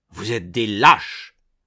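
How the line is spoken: Shouted angrily. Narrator (French): vociféra Belle Manière

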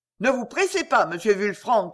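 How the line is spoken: Peasant shouting. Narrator (French): cria un paysan

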